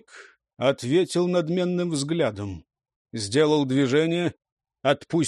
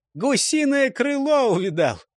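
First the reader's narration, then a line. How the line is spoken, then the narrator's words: Laughing crowd. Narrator (Russian): засмеялись кругом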